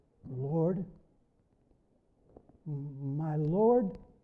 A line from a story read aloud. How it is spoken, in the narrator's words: Weakly I croaked